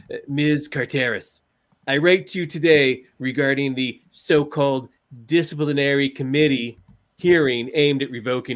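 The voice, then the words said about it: Donald Trump impression. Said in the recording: “my Donald Trump impression is probably second only to my Jerry Seinfeld impression ... I'm going to do a little dramatic interpretation of the letter that Donald J. Trump wrote”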